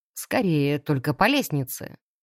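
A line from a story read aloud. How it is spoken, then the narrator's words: Smirking snort. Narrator (Russian): Хмыкнул все тот же тип в сером костюме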